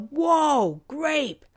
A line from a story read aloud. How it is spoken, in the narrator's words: someone yell